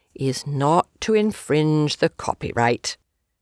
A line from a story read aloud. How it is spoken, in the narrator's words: spoke it solemnly